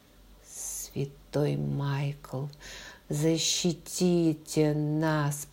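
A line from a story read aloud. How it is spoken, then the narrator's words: Hoarse whisper. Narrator (Russian): послышался у двери хриплый шепот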